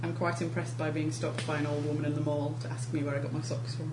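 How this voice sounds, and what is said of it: English accent. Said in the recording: “she heard my accent. She was like, oh, I've been to England”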